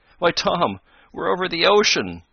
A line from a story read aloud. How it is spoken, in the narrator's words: he cried